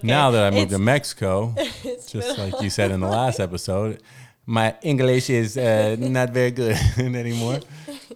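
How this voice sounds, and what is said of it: Put-on vaguely Italian-sounding accent. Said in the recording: “I don't know what accent that was even... Not Mexican, I'll tell you... That was not Mexican. That was like Italian or something.”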